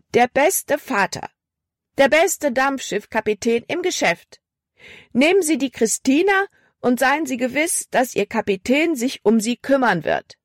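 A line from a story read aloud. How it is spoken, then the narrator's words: Loud call. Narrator (German): rief sie laut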